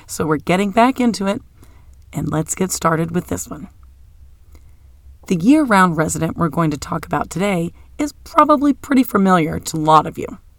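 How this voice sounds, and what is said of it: Voice sounding ill. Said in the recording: “as you can probably tell from my voice, I have been under the weather for a little bit”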